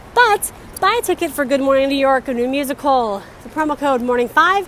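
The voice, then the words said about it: Out of breath, breathless speech. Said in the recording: “I'm out of breath because I'm walking up some rough terrain right now.”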